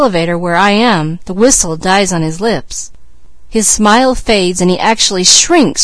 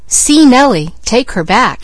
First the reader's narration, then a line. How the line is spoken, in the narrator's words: he exclaimed